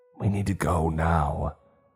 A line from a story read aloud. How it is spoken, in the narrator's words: Mary hissed at us